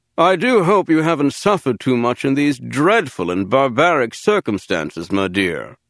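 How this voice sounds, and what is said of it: Posh upper-class accent. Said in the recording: “affecting a posh upper-class East Quadrant Coruscant accent.”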